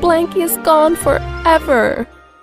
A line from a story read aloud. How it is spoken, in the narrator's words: whined DW